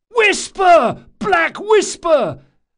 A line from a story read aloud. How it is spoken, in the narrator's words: at the top of his lungs